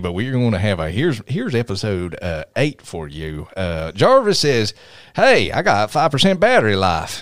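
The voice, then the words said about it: Exaggerated Tennessee Southern accent. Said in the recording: “I'm going to use my real Tennessee accent for the rest... We're going to have a translation if you keep talking like that.”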